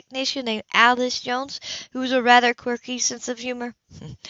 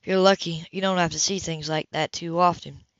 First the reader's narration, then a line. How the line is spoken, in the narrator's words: he sighed